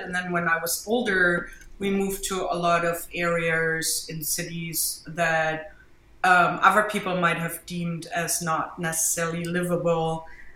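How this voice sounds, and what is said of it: German accent. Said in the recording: “I'm from Germany, as you can hear from my accent”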